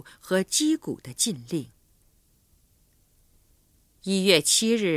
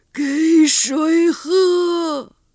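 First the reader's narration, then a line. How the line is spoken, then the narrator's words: Pitiful cry. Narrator (Chinese): 这声悲惨的呼唤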